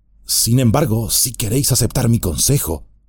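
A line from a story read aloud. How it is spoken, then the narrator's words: Low voice. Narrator (Spanish): dijo en voz baja Éomer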